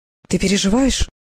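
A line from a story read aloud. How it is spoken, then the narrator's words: Very gentle. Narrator (Russian): Вопрос был задан очень мягко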